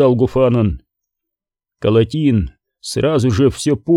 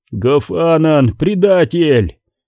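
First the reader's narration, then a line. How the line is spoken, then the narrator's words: Shout. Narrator (Russian): крикнул Корум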